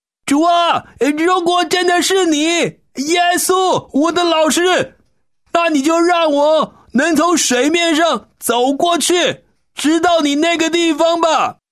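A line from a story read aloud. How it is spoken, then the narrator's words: Loud calling. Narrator (Chinese): 彼得就大声对着那个人影说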